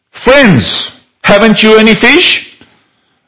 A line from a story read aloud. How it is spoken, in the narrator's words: He called out to them